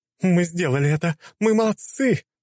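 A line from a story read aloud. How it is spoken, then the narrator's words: Shrieking. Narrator (Russian): завизжала темная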